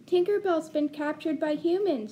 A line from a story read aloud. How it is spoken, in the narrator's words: cried